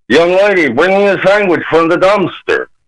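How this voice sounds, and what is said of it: Combined imitation of two character voices. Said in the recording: “the other voice... you put the two voices together... That's a really good impression.”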